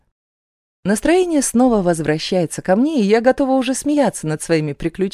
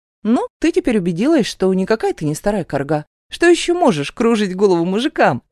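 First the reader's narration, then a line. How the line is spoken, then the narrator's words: Cheerful question. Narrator (Russian): спрашивает Лена весело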